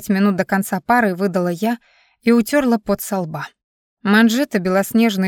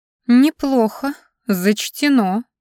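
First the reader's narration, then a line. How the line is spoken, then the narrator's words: Reluctantly forced out. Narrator (Russian): наконец выдавила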